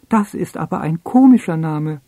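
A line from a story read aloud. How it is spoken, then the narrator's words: Mouse calling out. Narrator (German): ruft die Maus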